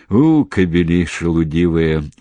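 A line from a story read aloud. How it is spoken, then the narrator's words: Reproachful grumbling. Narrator (Russian): укоризненно ворчал Седых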